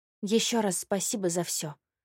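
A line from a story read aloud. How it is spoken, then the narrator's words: Barely audible. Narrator (Russian): еле слышно проговорила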